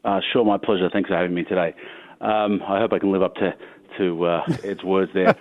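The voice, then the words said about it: Foreign accent. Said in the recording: “someone with a foreign accent”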